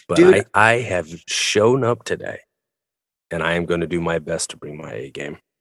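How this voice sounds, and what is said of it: Subdued, tired-sounding voice. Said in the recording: “Ooh, a subdued ... Subdued, yeah. ... You sound like a man that's been working hard. ... I'm tired, my friend.”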